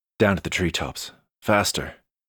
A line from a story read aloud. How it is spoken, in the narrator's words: whispered